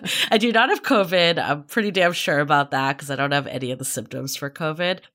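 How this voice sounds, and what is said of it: Raspy, congested sick voice. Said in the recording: “tell from my voice, I'm a little raspy and under the weather right this minute. I've actually had a head cold”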